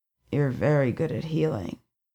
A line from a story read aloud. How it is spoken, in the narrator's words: he told her, his voice husky from sleep